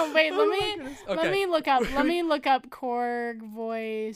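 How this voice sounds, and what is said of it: Usual voice. Nothing is said of it.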